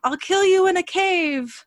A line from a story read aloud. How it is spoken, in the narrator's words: he screamed at him